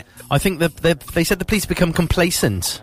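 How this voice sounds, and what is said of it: Put-on Welsh accent. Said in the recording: “I said that in a Welsh accent.”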